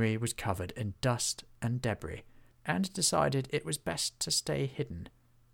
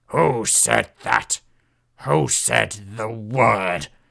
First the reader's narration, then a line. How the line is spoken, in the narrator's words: A voice boomed like thunder